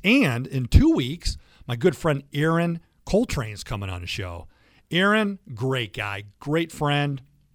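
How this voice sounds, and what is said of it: Fake radio announcer voice. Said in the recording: “This is my fake radio voice.”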